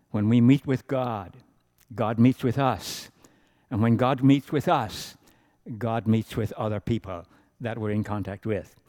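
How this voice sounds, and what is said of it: Irish accent. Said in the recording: “my accent is Irish, or kind of, I don't know what it is now ... I come from Southern Ireland”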